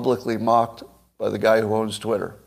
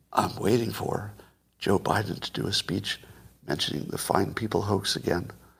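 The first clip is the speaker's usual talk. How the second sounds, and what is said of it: Whispered imitation of a politician. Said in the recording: “whisper this, okay? This is a Joe Biden whisper.”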